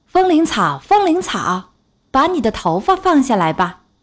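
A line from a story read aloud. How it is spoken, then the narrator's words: Loud call. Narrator (Chinese): 王子……高声喊道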